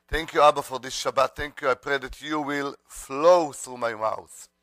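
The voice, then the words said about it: Speaks with a foreign accent. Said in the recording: “even with the accent”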